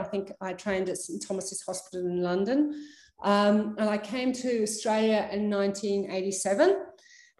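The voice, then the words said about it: British accent. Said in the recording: “as you can probably tell from my accent, I come from the UK”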